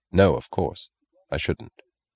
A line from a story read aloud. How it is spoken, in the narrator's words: He answered quietly, gravely